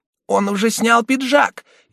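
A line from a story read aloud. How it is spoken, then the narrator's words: Girl shouting. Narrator (Russian): одна из девочек закричала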